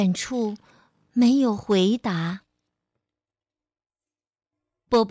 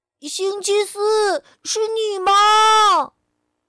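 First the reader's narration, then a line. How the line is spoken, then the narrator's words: Father shouting. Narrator (Chinese): 爸爸喊道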